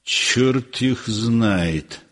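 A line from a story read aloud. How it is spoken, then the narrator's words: Grumbling. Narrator (Russian): ворчал Щукин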